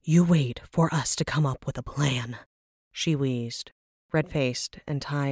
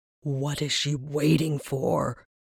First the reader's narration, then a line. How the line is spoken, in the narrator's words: He growled